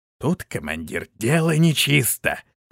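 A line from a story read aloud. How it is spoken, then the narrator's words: Whisper. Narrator (Russian): произнес шепотом Шорх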